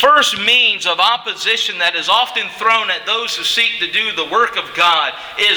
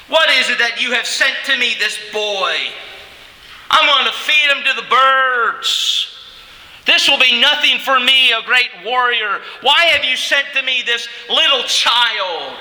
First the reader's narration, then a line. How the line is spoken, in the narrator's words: He mocked him